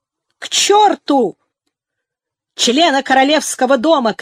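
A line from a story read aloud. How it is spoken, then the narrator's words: Shout. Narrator (Russian): крикнул Хенчерт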